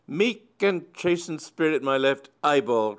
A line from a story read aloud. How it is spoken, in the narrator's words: cried Myrtle